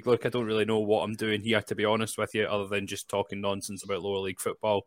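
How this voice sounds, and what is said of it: Scottish accent. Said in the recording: “accent doesn't match his team... the Scottish contingent”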